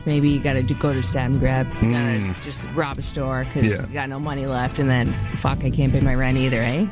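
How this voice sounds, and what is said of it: Canadian Ontario accent. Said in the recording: “That was the most Canadian I ever heard you sound. ... It's my Ontarian accent.”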